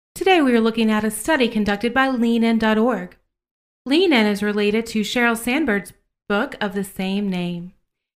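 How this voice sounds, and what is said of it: Smooth, neutral public-radio voice. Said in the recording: “my best impression of the smooth, neutral NPR voice.”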